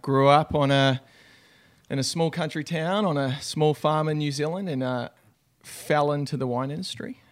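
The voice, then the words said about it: New Zealand accent. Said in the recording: “you've got such a great accent ... originally I'm a Kiwi, so from New Zealand”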